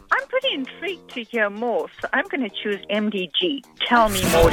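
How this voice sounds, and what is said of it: Speaks with a distinctive accent. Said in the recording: “I love your accent”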